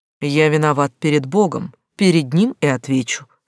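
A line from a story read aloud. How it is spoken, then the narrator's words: Calm man. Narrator (Russian): спокойно сказал мужчина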